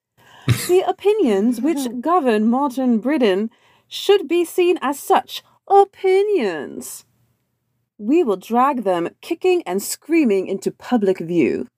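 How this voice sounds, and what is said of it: Put-on British accent. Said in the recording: “I should be saying this in a British accent”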